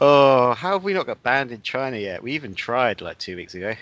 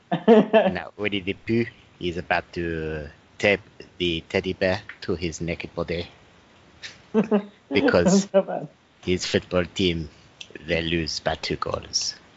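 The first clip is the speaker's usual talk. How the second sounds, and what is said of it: Put-on French accent. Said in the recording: “Can I do a French accent? ... It's probably my best accent. ... Yeah, it's not bad.”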